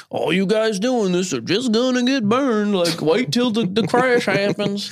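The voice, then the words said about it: Put-on Texan Southern accent. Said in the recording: “I was wondering when you were going to do a Texas accent. That sounded a little, Texas. That was a little Southern ... I'm doing a Texan accent.”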